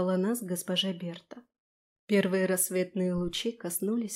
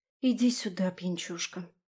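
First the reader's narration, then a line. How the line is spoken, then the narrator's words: Quiet. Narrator (Russian): тихо сказала я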